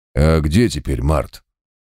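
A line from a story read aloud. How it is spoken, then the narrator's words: Snorting. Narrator (Russian): хмыкнул квас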